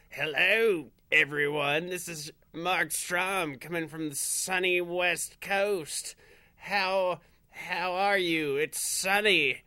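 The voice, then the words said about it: Imitates another person's voice. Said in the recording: “my Mark impression”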